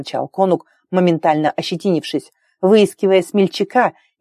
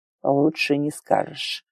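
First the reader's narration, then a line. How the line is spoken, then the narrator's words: Muttering. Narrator (Russian): пробормотал Макс Роден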